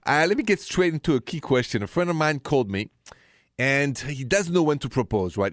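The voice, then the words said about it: Thick French accent. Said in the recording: “my thick accent, it's straight from Paris, France... this accent is still there”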